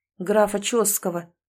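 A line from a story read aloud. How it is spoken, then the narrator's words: Plain. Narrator (Russian): ответил Сэм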